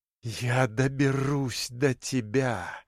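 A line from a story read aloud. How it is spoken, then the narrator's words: Hissed through teeth. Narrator (Russian): прошипела сквозь зубы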